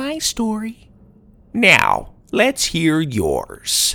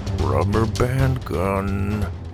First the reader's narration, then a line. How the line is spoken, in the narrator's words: Grandpa mumbled to Sawyer